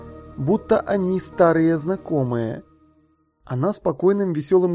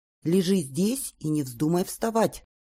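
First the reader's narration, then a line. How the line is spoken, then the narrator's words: Quiet stern instruction. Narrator (Russian): тихо наказала матушка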